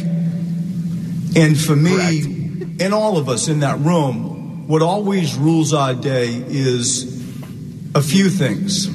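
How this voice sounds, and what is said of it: Strong accent like The Departed. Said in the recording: “This guy's like trying out for a part in The Departed or something. ... With that accent.”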